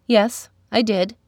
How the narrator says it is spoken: replied Thusa

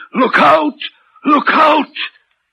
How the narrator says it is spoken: the voice seemed hoarse with shouting and it cried

